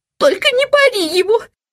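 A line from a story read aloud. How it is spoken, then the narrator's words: Mother sobbing. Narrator (Russian): всхлипывала мама Ларсон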